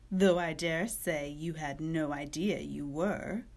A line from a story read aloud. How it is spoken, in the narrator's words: laughed, as if that was the funniest part of it